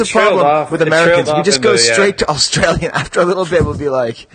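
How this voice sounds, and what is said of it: Usual voice. Nothing is said of it.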